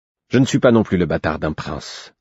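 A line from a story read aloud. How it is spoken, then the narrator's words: Curt reply. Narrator (French): répondit-il sèchement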